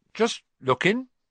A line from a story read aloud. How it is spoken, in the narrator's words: he said in a shifty voice